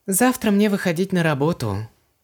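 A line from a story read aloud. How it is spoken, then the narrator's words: Sad. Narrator (Russian): грустно произнесла Ванесса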